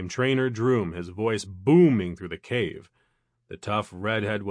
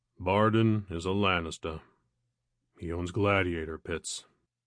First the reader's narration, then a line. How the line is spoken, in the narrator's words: The giant took a heavy sigh and, hiding a gloomy look, answered